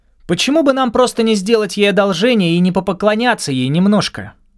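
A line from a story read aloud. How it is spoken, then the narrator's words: Loud shout. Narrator (Russian): выкрикнула она так громко, как будто прошла курс обучения у Эстеллы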